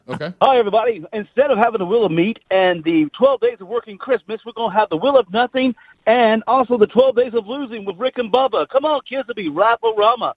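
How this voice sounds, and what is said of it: Announcer-style radio voice. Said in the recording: “I'm going to use my radio voice I've been working on”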